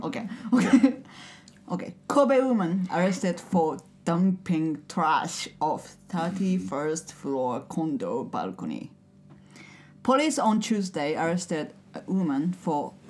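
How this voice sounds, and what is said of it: Pleasant voice with slight accent. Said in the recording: “nice fucking voice with a cute little accent”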